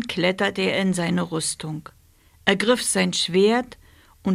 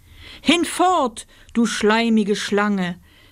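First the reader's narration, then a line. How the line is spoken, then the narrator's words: Calling out. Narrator (German): rief Oswald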